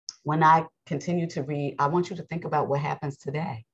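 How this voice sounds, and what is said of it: Raspy, strained voice. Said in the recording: “my voice is so raspy.”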